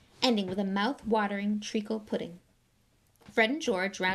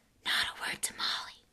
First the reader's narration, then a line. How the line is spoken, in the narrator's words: he whispered to Harry